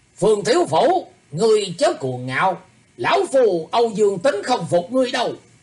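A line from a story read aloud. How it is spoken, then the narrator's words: Challenging shout. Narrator (Vietnamese): một bóng người quát lên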